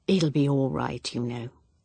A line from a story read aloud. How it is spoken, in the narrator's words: said Evelyn gently